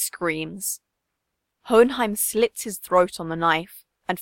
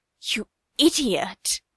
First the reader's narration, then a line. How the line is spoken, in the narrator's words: he hisses, tears clouding his vision